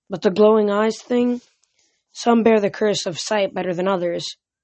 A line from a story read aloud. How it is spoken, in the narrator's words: the goddess said sadly